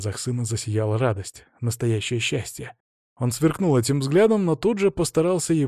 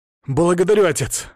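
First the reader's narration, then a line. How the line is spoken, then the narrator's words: Echoing exclamation. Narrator (Russian): воскликнул так, что эхо расползлось по залу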